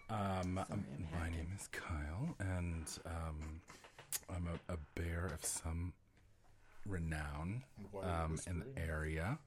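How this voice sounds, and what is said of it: Smooth whispering voice. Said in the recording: “I'm whispering because I have a beautiful whispering voice ... It's a smooth jazz operator voice.”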